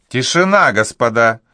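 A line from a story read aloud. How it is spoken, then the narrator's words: Exclaiming. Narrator (Russian): воскликнул кавалер де Фонтене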